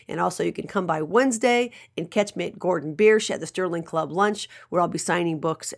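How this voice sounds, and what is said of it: Worn-out, damaged voice. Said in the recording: “my voice is shot due to allergies”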